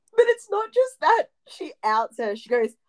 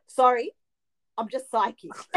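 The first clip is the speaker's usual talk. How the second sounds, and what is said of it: Imitates another person's voice. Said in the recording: “that impersonation”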